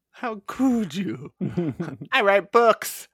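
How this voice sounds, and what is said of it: Impression of Hal Holbrook. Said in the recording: “That's perfect accent rendition right there. ... an incredible impression of Hal Holbrook doing it.”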